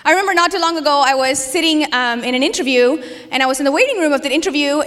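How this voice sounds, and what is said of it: Mild foreign accent in English. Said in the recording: “Maybe my English is a little bit more sanitized than most accented English, but still, there's an accent there.”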